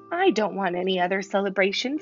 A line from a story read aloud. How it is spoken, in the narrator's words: said Mrs